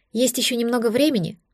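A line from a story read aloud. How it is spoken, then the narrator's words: Breathless sigh. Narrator (Russian): вздохнула я, переводя дух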